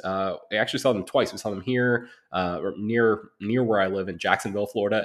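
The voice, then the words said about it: Sick-sounding voice. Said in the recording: “as you can probably still hear from my voice, I'm still a little bit sick”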